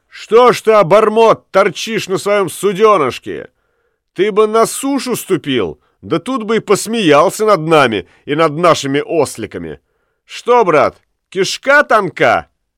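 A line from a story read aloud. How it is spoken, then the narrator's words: Shouting reply. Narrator (Russian): отвечал Уллиншпигель … крикнул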